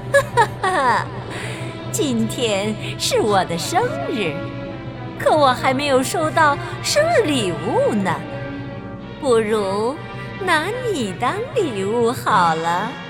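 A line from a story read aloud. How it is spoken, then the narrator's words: Sinister laugh. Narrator (Chinese): 他奸笑着对艾达拉说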